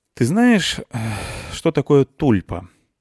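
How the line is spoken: Sighing question. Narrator (Russian): вздохнув, спросил Петрович

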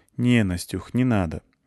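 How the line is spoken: Unexpectedly soft. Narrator (Russian): неожиданно мягко сказала Клюся

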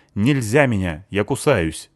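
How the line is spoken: Angry girl's reply. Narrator (Russian): зло ответила девушка

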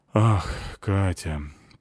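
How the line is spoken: Understanding sigh. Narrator (Russian): понимающе вздохнул директор

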